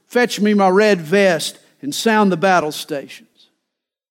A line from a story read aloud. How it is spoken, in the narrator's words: The captain barked his orders